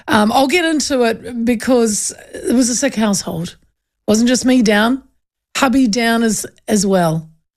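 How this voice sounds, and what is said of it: Voice not fully recovered, slightly rough. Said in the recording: “I still sound, I think, a little bit, kind of my voice isn't back completely”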